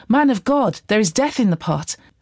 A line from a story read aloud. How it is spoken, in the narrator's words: they cried out